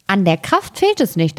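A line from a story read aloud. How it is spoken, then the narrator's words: Plain. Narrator (German): antwortete das Schneiderlein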